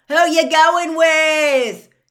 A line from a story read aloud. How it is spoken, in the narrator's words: he yelled after Hermione